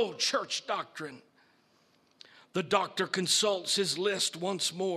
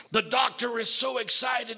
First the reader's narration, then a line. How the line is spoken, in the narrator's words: he shouts again